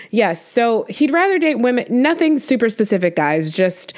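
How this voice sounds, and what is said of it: Usual voice. Nothing is said of it.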